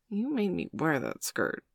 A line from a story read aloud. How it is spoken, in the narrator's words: mumbled Bailey, flushing pink